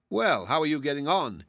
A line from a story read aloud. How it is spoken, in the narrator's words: he would ask cheerfully